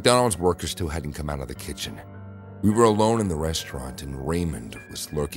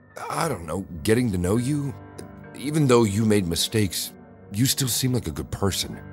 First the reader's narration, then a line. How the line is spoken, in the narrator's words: he said